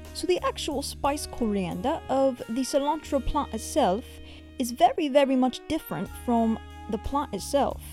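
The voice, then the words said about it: Bad British accent, slightly Australian. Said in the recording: “my British accent is horrendous ... Actually has a little bit of Australian twang in there”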